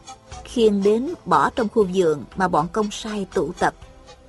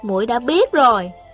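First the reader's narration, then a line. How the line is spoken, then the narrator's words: Smiling speech. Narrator (Vietnamese): Thanh Thanh mỉm cười nói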